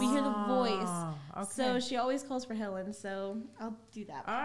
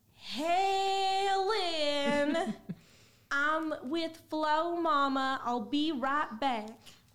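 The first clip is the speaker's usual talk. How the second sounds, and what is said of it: Southern accent, mom character voice. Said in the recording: “the Southern accent must be fun”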